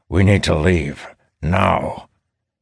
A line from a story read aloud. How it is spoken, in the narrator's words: Boris growls